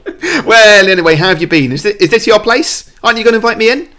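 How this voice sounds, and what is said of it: Put-on character accent. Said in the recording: “you do an accent work”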